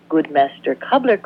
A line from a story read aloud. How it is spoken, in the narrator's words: cried the cuckoo